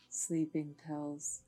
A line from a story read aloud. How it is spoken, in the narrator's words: added Adam in a quiet voice